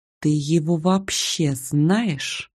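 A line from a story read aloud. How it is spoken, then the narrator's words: Whisper in ear. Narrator (Russian): шепнула на ухо Ольга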